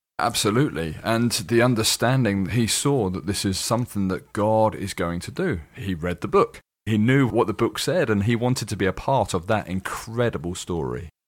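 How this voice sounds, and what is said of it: Slight British accent. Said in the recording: “you're from the UK, which is obvious. You have a slight accent.”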